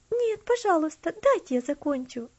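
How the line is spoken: Pleading. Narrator (Russian): взмолилась она

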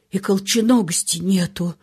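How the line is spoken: Even quieter rasp. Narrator (Russian): еще тише прежнего прохрипел он

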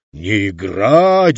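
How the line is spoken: Roar. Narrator (Russian): взревел актер

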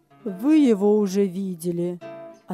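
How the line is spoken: Plain. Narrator (Russian): ответил господин Бланк

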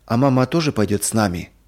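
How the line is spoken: Timid, trembling, near tears. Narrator (Russian): робко спросил Юрик, и голос его задрожал, будто он хотел заплакать

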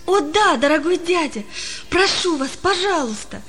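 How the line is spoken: Joyful exclamation. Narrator (Russian): воскликнул Палка радостно

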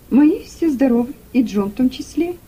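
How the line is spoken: Cheerful reply. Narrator (Russian): весело ответила Руфь

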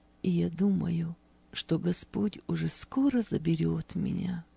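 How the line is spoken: Quiet but confident. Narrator (Russian): негромко, но уверенно произнесла она

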